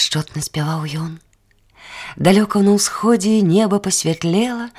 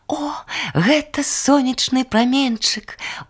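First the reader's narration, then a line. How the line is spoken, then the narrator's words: Exclaimed. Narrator (Belarusian): усклікнула расінка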